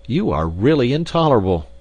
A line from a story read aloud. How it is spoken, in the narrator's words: said I hotly